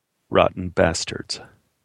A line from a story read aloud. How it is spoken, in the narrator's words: Abe muttered